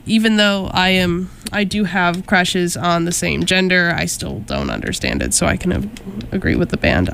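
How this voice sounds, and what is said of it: Sick-sounding voice. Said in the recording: “sorry about my voice. ... I'm currently getting off of a cold”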